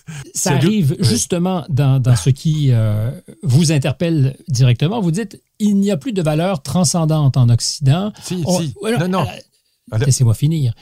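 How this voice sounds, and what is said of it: Québécois French accent. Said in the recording (French): “J'adore votre accent ... Québécois”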